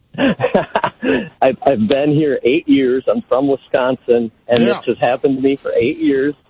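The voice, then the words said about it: Northern US accent. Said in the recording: “my northern accent”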